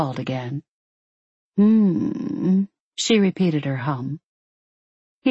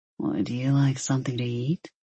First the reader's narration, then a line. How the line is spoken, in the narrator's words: He asked quietly